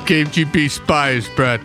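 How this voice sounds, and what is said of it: Put-on Russian accent. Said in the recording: “a good Russian accent”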